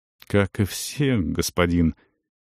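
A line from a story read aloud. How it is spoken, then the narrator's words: Hesitant speech. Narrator (Russian): неуверенно проговорил Риен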